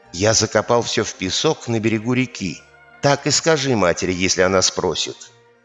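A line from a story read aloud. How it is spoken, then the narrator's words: Whispering. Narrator (Russian): Стал шептать ему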